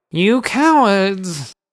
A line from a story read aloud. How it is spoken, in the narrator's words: Vanderalt screamed from under his silly hat